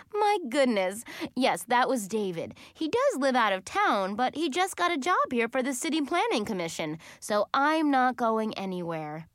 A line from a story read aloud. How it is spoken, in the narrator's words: Hunter said with a laugh